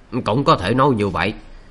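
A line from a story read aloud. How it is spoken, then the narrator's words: Old man's indifferent reply. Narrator (Vietnamese): Lão giả không hề tức giận, chỉ hờ hững đáp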